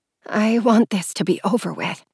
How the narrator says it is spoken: whispered

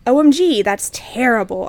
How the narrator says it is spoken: I gasped

